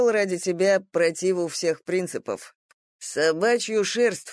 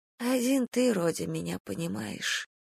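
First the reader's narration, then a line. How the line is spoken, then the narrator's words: Whisper. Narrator (Russian): прошептала она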